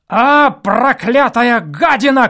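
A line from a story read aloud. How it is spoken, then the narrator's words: Angry shout. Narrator (Russian): крикнул он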